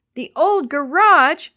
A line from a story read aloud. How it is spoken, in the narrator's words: Willie shouted